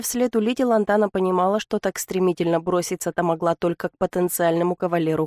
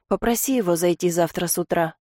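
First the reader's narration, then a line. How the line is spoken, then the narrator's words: Sighing. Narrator (Russian): вздохнула Лантана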